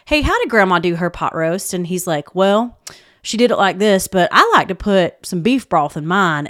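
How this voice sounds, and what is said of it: Put-on Southern accent. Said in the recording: “I've got to do the Southern accent”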